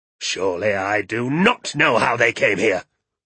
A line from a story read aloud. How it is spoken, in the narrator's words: snapped Mr